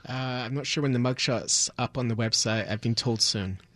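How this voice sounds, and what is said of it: Non-American accent. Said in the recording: “your accent's not from South Milwaukee”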